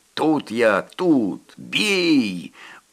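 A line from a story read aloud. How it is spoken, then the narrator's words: Choked wheeze. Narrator (Russian): удушенно захрипел Коля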